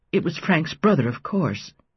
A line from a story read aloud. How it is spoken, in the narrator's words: was dismayed by the way her voice quavered